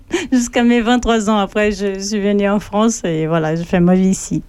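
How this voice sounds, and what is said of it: Brazilian accent speaking French. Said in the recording (French): “cette je belle accent ... je suis née dans le sud du Brésil, pas loin de l'Argentine”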